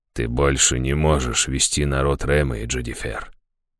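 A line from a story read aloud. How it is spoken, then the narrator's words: Quiet but firm. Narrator (Russian): тихо, но твердо сказала Лазарес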